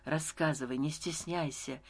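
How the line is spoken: Gentle request. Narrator (Russian): мягко попросил Стась

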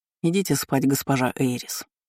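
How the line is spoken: Sudden matter-of-fact tone. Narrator (Russian): вдруг будничным тоном произнес Айнен

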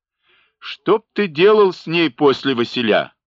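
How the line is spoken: Loud laughter. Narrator (Russian): захохотал Хоня

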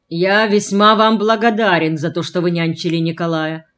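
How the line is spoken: Booming father's voice. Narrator (Russian): прогудел отец

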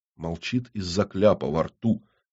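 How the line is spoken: Quiet remark from far corner. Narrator (Russian): негромко сообщил сидящий в дальнем углу Иннокентий

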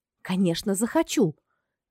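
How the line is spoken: Confident exclamation. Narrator (Russian): воскликнула убежденно

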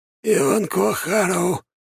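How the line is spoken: Hoarse. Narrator (Russian): сипло проговорил он

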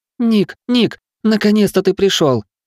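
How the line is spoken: Sobbing. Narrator (Russian): рыдал

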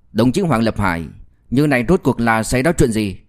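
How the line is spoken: Cold voice. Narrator (Vietnamese): lạnh lùng quay sang nói với Hoàng Lập Hải

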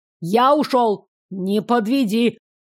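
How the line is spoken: Shouting. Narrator (Russian): крикнул Тито

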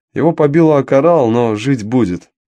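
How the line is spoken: Plain. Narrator (Russian): сказал Мило

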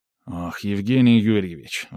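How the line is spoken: Sighing mage. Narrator (Russian): вздохнул маг

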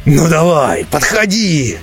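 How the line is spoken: Dwarf's roar. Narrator (Russian): проревел прямой дворф Ремархазу

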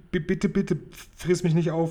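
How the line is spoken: Stammering. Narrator (German): stotterte Sophiechen

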